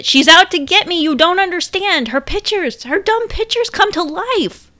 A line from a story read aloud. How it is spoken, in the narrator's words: Kelsey was losing it, crying in the bathroom, shouting in the hallway